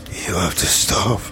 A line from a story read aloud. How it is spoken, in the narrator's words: he whispered